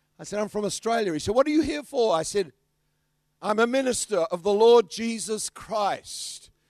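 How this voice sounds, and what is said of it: Australian accent. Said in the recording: “He can hear my kangaroo accent.”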